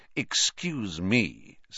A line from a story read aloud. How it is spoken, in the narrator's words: said Snape, icily